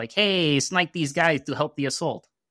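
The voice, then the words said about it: Put-on Russian accent. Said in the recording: “that's my Russian accent.”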